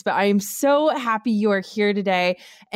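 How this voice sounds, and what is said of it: Excited, upbeat voice. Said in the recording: “I am just like so excited. I'm sure everyone can hear it in my voice”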